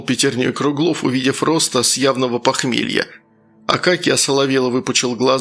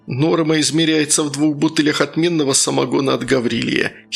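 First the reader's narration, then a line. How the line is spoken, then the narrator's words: Giggling into ear. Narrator (Russian): хихикнул Круглов на ухо Пантелею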